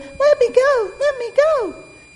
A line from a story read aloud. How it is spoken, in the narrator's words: The piglet squealed